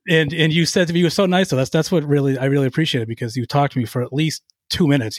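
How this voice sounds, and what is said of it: Strong Boston accent. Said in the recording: “my horrific Boston accent.”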